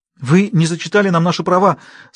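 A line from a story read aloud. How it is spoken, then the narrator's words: Tearful mumble. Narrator (Russian): сквозь слезы пробормотала Каролин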